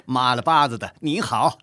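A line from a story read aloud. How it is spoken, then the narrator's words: Laughing reply. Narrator (Chinese): 乐敏也笑回一句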